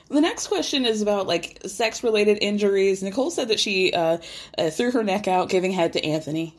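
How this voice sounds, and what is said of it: Voice giving out. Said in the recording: “I'm losing my voice.”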